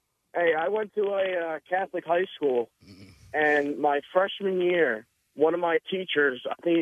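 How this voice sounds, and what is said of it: Usual voice. Nothing is said of it.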